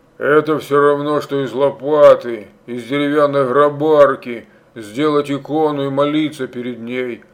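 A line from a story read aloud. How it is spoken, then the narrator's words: Grumbling old man. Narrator (Russian): ворчал бородатый какой-то старик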